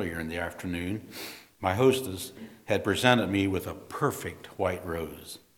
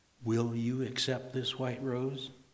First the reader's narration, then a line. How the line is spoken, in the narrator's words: I asked gently